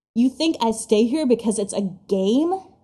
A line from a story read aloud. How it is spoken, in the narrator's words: he continues in a low snarl